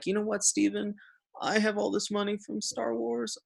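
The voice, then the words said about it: Quiet, weak imitation of another's voice. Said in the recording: “This is my George Lucas impersonation. ... Not very good ... It's quiet.”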